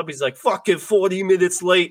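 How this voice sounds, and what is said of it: Failed Swedish accent, sounds Irish. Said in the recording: “Did he suddenly turn Irish too ... I was trying to do a Swedish accent. It didn't work, clearly.”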